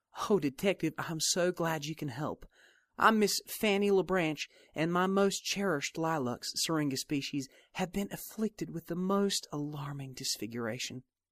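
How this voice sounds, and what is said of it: Sultry southern drawl, troubled tone. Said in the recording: “A sultry southern drawl carried with it a troubled tone.”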